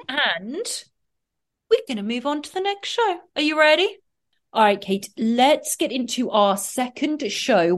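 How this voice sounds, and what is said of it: English accent. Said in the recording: “excuse my accent ... In England, we pronounce P-O-R-N and P-A-W-N the same.”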